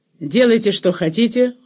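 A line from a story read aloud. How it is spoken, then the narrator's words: Cold farewell. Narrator (Russian): холодно сказал он им на прощание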